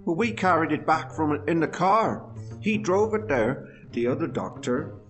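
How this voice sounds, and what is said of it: British accent. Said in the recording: “He says with a British accent, you're all British, aren't you?”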